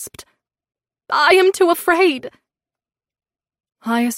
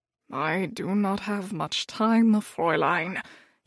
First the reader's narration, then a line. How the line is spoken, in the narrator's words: he said quietly to me